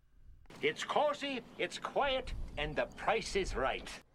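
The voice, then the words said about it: Very bad fake Irish accent. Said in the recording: “had the worst Irish accent I've ever heard... this is his version of an Irish accent... That's pretty bad... that's like the Dollar General Irish accent”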